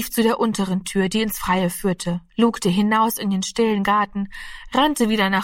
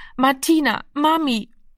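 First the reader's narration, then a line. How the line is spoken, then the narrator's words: Hoarse, exhausted, helpless sobbing. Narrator (German): Heiser und kraftlos vor Erschöpfung, schluchzend und hilflos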